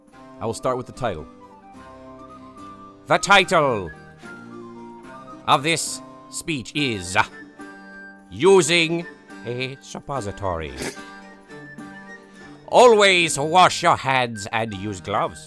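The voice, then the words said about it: Theatrical Shakespearean accent. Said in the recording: “in a classic Shakespearean voice ... read Shakespearean ... with a Shakespearean accent”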